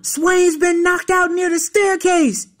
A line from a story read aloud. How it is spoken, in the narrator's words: some white kid dashed into the room yelling